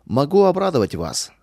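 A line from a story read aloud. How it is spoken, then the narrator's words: Authoritative tone. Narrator (Russian): авторитетным тоном сказал он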